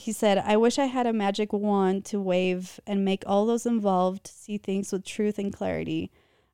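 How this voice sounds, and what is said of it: Faint distant accent. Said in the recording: “Don't you guys love ... voice? ... Love her like her distant accent. That's just beautiful. ... Comes out when I'm nervous.”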